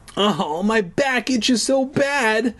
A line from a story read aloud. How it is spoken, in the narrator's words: I wailed